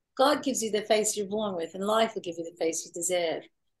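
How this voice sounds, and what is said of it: Imitated Australian accent. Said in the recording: “she's from Australia, so I have to do the accent.”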